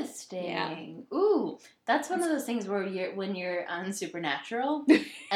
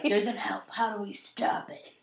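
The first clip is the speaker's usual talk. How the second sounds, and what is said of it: Imitates a TV character's voice. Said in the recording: “that was a good impression ... That was Dean Winchester ... Oh, I nailed it”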